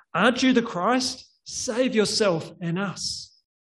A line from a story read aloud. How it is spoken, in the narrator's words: one of the criminals on the cross being crucified next to him cried out